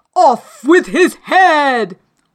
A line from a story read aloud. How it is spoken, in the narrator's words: shouting